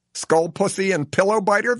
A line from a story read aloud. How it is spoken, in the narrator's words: the jailer barks